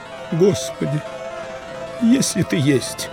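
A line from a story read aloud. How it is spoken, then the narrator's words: Desperate pleading prayer. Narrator (Russian): Взмолился отроду немолившийся человек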